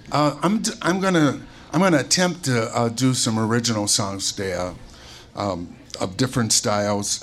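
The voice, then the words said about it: Hoarse, low voice. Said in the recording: “That's why I'm a little bit hoarse today. we were screaming... Hopefully by the third or fourth song, I'll get my voice back. I felt like Barry White this morning”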